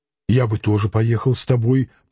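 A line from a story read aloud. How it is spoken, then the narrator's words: Doubtful mumble. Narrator (Russian): пробормотал Клим, не веря ей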